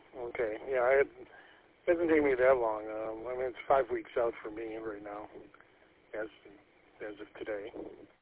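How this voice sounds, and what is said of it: Slightly raspy voice. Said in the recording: “my voice is still a little raspy”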